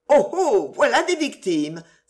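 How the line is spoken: Exclaiming. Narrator (French): s'écria-t-elle

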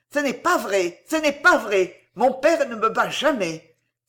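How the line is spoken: Trembling with indignation. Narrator (French): s'écria-t-il d'une voix tremblante d'indignation

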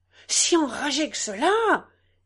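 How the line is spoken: Exclaiming. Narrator (French): s'écria M

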